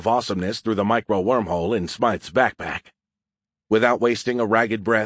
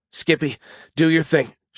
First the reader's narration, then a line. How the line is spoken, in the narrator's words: choked out the words, sucking in air to replenish her depleted lungs